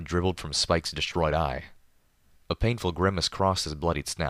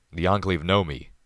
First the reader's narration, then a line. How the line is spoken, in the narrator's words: growled despondently